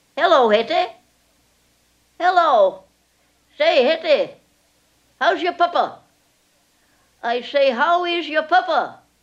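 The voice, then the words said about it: Old woman's Maine accent. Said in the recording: “this Maine accent”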